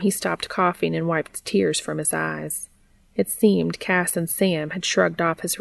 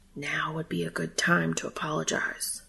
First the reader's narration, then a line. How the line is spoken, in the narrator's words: his traitorous brain whispered